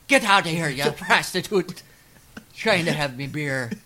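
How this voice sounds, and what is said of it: Bad old Irishman accent. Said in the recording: “shifted to an old Irishman ... That's how bad that impression is.”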